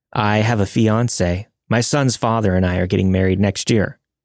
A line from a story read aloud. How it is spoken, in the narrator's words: I replied